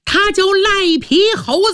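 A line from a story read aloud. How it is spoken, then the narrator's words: Shout from crowd. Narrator (Chinese): 人群中有人喊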